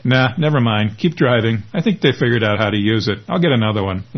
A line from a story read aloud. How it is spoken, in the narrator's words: laughs Lance